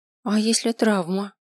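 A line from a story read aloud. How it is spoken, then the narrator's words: Timid question. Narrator (Russian): робко спросила Шелли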